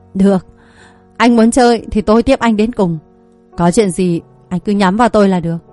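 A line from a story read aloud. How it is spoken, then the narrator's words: Cold laugh, measured words. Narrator (Vietnamese): anh bật cười lạnh lùng, nói từng câu từng chữ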